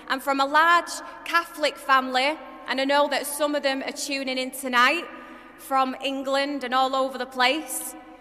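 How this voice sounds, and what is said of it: Manchester English accent. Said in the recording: “I'm from Manchester, you could probably tell by my accent”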